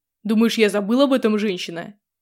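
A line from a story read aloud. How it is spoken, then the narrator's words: Barked. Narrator (Russian): Рявкнул на меня Асрая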